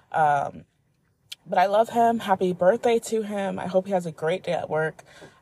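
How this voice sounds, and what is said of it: Tired-sounding voice. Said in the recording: “I'm still tired as fuck. You could probably hear it in my voice.”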